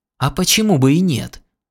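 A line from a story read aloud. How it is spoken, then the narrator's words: Exclaiming. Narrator (Russian): воскликнул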